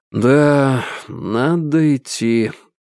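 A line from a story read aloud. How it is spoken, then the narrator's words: Heavy sigh. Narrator (Russian): тяжко уже вдохнул и выдохнул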